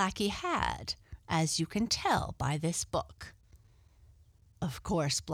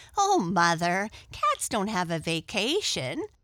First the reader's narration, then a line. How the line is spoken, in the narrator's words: laughed Arthur